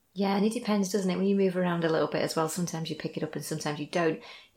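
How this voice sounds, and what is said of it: Northern English accent. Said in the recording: “I don't think I've ever really lost that lilt... I certainly haven't got a southern accent... I can hear the northern.”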